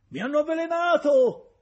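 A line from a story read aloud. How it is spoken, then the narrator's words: Shouting. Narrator (Italian): gridava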